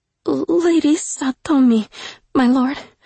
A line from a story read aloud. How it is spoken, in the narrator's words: Suki stammered, truly stunned by his kindness